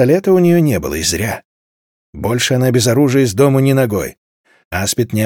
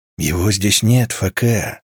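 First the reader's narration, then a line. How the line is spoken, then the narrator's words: Quiet. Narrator (Russian): тихо произнес алларианец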